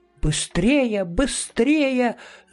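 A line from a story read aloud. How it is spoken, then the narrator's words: Shouted, mother. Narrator (Russian): закричала мама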